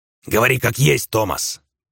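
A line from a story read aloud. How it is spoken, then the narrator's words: Barked. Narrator (Russian): рявкнул Сальвати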